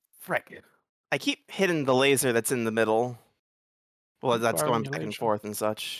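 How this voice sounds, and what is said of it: Usual voice. Nothing is said of it.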